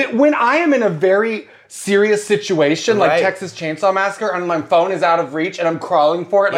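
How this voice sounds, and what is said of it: Usual voice. Nothing is said of it.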